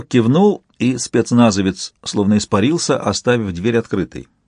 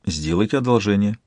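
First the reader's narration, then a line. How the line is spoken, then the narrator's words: Quiet. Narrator (Russian): тихо сказал принц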